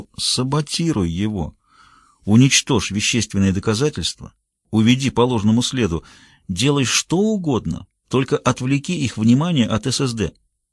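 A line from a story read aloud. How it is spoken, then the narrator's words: Whispering. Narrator (Russian): Уитком зашептал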